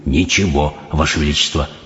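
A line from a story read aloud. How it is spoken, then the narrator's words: Whisper. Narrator (Russian): прошептал мистер Тибс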